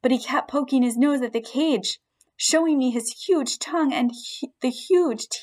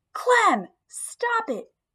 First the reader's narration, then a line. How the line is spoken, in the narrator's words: shouted in a firm voice